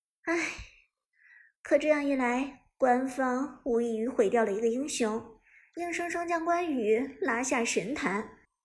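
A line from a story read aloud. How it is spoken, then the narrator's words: Sighing. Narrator (Chinese): 芊芊则叹息道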